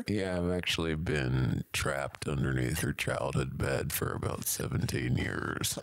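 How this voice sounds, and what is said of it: Weak, drained character voice. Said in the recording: “You sound like your batteries have been drained and they're about to run out.”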